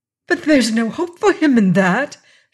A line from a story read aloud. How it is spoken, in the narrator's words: she cried